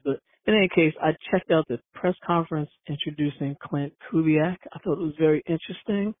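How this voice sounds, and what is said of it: Congested, stuffy-nosed voice. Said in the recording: “I've got a little bit of a cold mixed in with allergies, so I'm kind of congested.”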